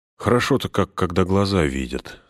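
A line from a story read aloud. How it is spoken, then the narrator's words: Relieved deep sigh. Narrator (Russian): сказал Фродо, глубоко вздохнув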